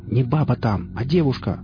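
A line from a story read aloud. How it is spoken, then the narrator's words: Exasperated yell. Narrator (Russian): заорал, не выдержав Рамир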